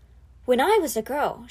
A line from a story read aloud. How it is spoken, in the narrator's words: said softly, trying hard to remember